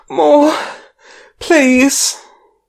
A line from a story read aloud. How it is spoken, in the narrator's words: her gasp out